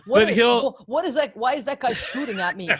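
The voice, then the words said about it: Poor imitation of another person's voice. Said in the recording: “the worst Bernie Sanders impression ... One worse than the other”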